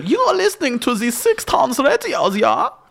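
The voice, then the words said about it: Put-on Viennese German accent. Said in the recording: “Do your Vienna accent ... let me do my Vienna accent ... that was German”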